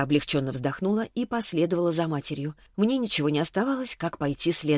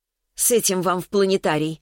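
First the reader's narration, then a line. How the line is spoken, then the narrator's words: Snapping retort. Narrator (Russian): огрызнулась Веста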